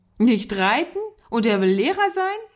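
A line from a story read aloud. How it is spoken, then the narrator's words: Boy calling, laughing. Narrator (German): rief der Junge lachend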